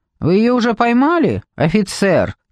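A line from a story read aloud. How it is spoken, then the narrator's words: Shouted. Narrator (Russian): крикнула она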